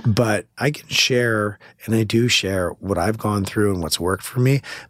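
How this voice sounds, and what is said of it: Hoarse, strained voice. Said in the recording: “I have laryngitis right now ... But I sound better on podcasts.”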